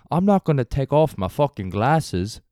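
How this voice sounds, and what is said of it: Bad Australian impression of Corey Worthington. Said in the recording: “Corey Worthington ... That was a horrible impression. ... I'm sorry to Australian Daniel and all the Australians listening.”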